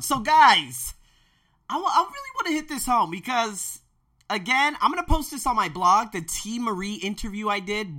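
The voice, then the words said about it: Slightly strained, worn-out voice. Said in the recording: “my voice is a little jacked up”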